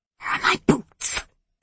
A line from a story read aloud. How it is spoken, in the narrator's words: the woman whispered